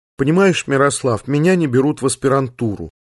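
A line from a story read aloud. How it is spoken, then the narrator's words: Sad sniffle. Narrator (Russian): Таня печально шморгнула носом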